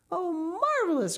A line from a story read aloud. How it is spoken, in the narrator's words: cried Miss Pynchon